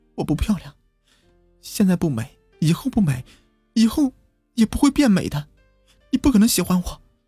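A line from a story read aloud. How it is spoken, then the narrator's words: Crying shout. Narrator (Chinese): 哭着对我喊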